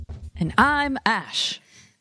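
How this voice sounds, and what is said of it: Butler voice. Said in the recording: “my best butler impression. I don't know if it was very good.”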